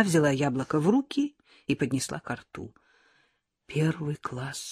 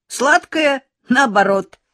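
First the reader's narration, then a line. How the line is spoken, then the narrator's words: Laughing. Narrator (Russian): засмеялся отличник Сашка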